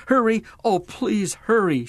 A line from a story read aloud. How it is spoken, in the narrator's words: half-sobbed